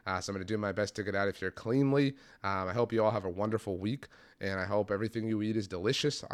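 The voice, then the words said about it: Strained, struggling voice. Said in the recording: “My voice is really, really struggling.”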